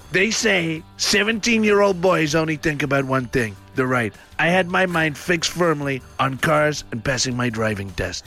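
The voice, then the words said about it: Impression of the US President. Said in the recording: “read it in a different voice ... I'm going to read it in the style of the President of the United States.”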